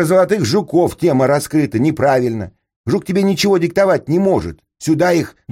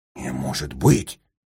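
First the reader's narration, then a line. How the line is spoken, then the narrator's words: Breathless exhale. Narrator (Russian): выдохнул Крым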